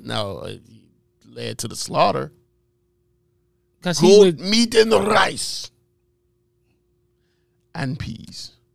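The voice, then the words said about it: Poor put-on Jamaican accent. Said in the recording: “You got a horrible Indian accent ... It's not supposed to be Indian. It's supposed to be Jamaican. And it's horrible nonetheless.”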